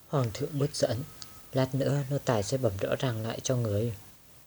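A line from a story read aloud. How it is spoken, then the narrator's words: Soft resigned report. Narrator (Vietnamese): Lý Đức Toàn biết là không giấu được, đành khẽ bẩm báo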